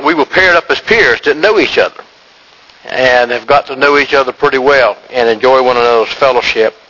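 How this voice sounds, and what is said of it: Carolina Southern American accent. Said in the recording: “his Carolina accent”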